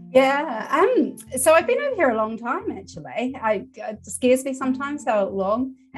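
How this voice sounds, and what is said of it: New Zealand accent. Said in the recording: “we're detecting an accent here, and you've already admitted to coming from New Zealand”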